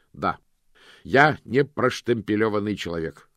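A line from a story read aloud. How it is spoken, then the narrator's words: Shout. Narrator (Russian): крикнул Мокрец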